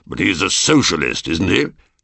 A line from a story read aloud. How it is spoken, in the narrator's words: Paul growled